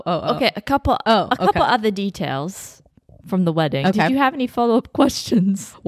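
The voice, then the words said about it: Inconsistent put-on British accent. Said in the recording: “So now you're a British hamster ... my accent's all over the fucking place. As a British person, I think it's atrocious”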